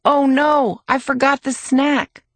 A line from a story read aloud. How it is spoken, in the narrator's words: Mom shouts